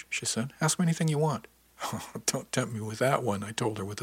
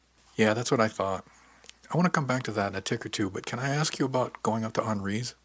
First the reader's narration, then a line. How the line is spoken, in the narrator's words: I asked